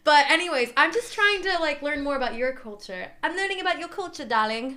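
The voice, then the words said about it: Bad put-on British accent. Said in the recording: “Bad accents. ... I'm horrible at accents, but I'm trying”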